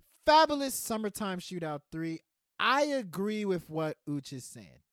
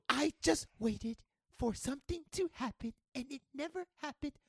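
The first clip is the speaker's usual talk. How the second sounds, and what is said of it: Imitates another person's voice. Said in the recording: “That's my Skip Bayless impersonation”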